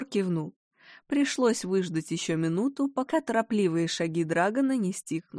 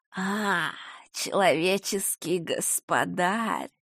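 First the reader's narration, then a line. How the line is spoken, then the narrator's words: Quiet wheezing growling hiss. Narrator (Russian): До Габора долетело тихое сипение, похожее на рычание раненого животного и змеиное шипение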